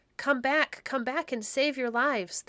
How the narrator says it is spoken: they cried

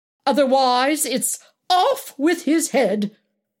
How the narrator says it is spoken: exclaimed Alex

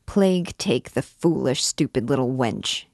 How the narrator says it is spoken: he muttered between his teeth

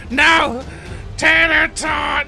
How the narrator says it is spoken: screaming at his night

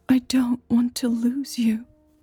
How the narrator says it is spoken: Millie said quietly

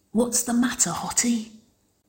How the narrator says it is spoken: Winona's stage whispered, grinning smugly

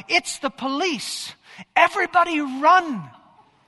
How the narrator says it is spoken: little three-year-old cried out

